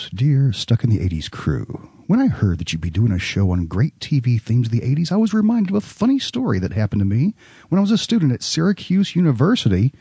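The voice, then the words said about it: Announcer-style radio voice. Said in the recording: “radio voice.”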